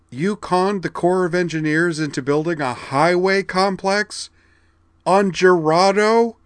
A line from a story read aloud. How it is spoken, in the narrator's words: cried